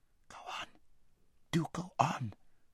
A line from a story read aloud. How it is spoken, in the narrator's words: whispered Aravis, whose heart was beating terribly, and who still felt that her father might run into them at any corner